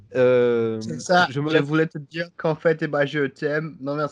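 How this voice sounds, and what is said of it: Put-on Quebecois accent sounding Congolese. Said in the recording (French): “l'accent québécois ... c'est un accent congolaise ... T'as fait un congolais québécois”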